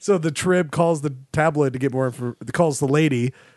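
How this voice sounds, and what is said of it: Usual voice. Nothing is said of it.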